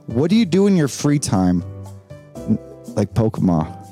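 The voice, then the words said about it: Loud, yelling voice. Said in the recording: “so loudly ... why are you yelling?”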